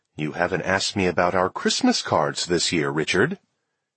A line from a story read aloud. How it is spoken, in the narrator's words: Arlene says to me in a very formal tone